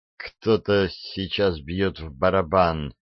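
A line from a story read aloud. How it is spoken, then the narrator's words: Muttering. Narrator (Russian): пробормотала она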